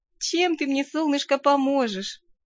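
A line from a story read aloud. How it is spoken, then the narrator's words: Sighing. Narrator (Russian): вздохнула я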